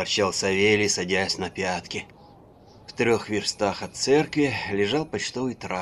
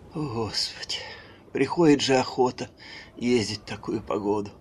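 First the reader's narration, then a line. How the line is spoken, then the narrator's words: Sighing woman. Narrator (Russian): вздохнула дьячиха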